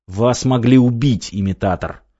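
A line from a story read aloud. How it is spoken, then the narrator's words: Angry. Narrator (Russian): зло произнес он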